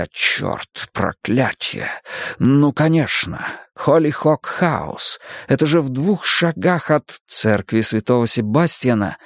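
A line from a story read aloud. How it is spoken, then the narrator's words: Muttered. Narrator (Russian): Крамли бормоча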